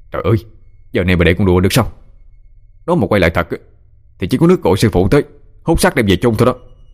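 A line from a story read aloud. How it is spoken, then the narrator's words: Irritated snap. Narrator (Vietnamese): Thọ gắt lên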